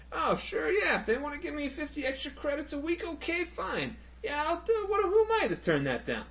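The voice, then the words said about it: Odd Italian-American New York accent. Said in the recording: “Like your accent ... I was trying to go for a Zach, and then it ended up being an odd Italian ... it's kind of a Joe Pesci kind of thing going there ... Sounds more New York-y.”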